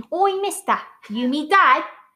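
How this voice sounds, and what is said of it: Put-on Cockney accent. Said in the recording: “I love me a Cockney accent”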